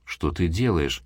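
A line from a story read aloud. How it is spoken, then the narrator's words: Quiet question to himself. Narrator (Russian): негромко спросил себя Дрейвик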